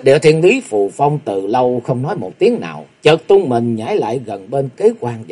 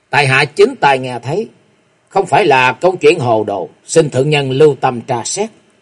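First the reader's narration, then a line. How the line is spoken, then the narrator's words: Cold. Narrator (Vietnamese): Kế Quan cất tiếng lạnh lùng nói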